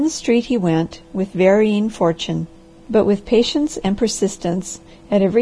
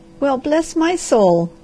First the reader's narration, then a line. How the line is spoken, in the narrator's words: cried she